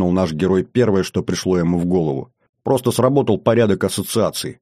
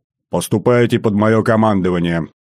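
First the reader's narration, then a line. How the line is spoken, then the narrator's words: Barked command. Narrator (Russian): гаркнул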